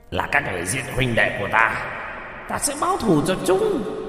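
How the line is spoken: Shrill voice. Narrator (Vietnamese): giọng the thé

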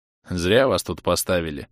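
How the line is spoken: Sympathetic mutter. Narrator (Russian): пробормотал Арлекин с сочувствием

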